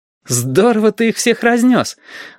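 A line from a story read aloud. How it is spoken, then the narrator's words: Joyful. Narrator (Russian): радостно вспомнил Стасик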